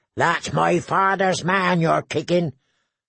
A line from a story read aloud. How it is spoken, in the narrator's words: howled the she-wolf